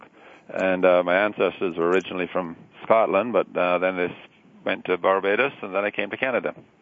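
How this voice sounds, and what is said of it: Barbadian accent. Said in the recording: “What's that accent I detect? ... I'm originally from Barbados, and you don't lose an accent very much”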